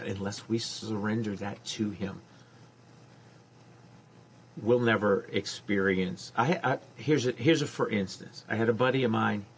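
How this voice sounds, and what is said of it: Baton Rouge regional accent. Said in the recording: “I can tell by the accent”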